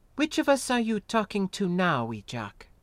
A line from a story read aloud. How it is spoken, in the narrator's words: She asked in a jousting tone of voice